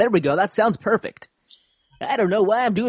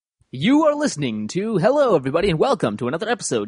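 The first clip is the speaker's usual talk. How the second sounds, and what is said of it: Exaggerated radio announcer voice. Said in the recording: “doing my radio voice”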